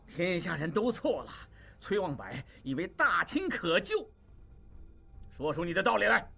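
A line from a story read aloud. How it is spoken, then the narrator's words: Shout. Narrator (Chinese): 王柏大叫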